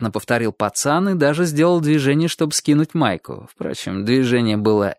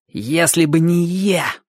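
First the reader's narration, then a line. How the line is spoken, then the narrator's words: Contemptuous boy's hiss. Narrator (Russian): презрительно прошипел мальчик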